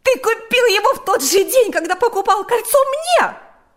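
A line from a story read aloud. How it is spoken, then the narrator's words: Shouting. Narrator (Russian): закричала Марьяна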